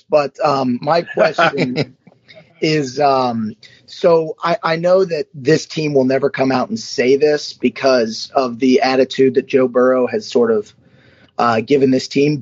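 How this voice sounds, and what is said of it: Hoarse voice. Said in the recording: “Sorry if I'm a little hoarse,”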